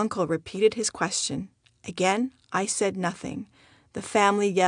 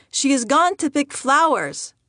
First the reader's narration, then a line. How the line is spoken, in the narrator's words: My family yelled